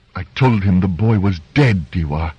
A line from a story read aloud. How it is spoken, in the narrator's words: said angrily